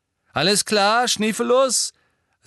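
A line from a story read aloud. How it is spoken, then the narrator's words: Loud. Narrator (German): sagte James laut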